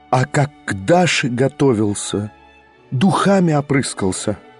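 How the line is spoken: Sudden terrible whisper. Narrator (Russian): проговорила она вдруг страшным шепотом

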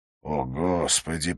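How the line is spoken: Through gritted teeth. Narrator (Russian): процедил Уоткинс

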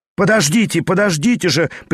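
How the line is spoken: Sharp shout. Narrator (Russian): прикрикнул, наконец, Виргинский

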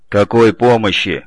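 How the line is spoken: Skeptic's grunt. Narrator (Russian): хмыкнул главный скептик отряда Гаранин

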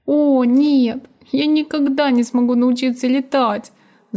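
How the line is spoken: Whimpering. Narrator (Russian): захныкал Арчи

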